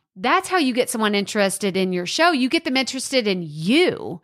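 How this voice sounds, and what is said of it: Texas twang accent. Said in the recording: “my accent. You love this Texas twang”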